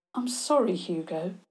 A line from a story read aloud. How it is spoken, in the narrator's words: Theo said gently